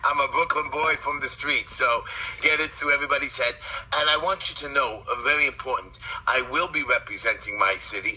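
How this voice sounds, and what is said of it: Brooklyn accent. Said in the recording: “I like your accent. ... that accent you hear is a Brooklyn accent.”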